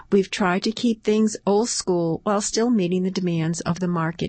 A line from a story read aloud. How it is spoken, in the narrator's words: he said